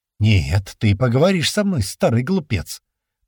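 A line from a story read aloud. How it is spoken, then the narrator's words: Hissing through teeth. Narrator (Russian): Прошипел тот сквозь зубы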